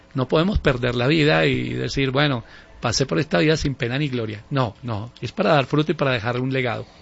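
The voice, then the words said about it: Smooth radio announcer voice. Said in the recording (Spanish): “habla sabroso ... Parece que tuviera emisora ... Voz de locutor y director de radio ... Es una voz de puro director de radio”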